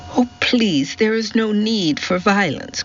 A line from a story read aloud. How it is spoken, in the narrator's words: cried Daisy